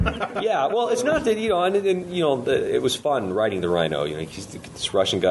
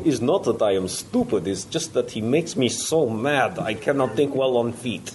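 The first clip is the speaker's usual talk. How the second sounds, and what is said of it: Russian-accented cartoon villain voice. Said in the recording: “best Boris impression”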